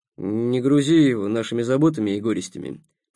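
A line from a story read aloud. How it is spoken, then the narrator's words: Grumble. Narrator (Russian): проворчал Сухов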